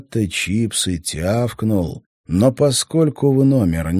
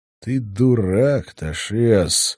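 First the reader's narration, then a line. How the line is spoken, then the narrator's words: Weary. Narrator (Russian): устало сказал Стрелок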